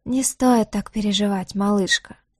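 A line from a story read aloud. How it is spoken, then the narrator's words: Soft purring, smiling. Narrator (Russian): проговорил тот с мягкой улыбкой, почти промурлыков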